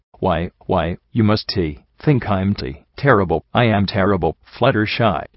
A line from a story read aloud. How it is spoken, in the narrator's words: she stammered around the tears